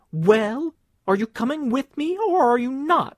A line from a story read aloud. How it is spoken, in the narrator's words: she advanced upon him with long strides, exclaiming